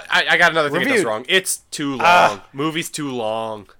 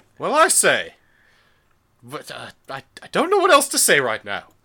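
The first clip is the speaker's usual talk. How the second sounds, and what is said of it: Put-on British accent. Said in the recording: “All of your ratings need to be in a British accent.”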